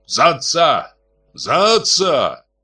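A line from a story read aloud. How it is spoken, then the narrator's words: Shouted out. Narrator (Russian): выкрикнул Автандил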